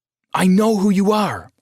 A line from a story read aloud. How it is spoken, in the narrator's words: yelled at her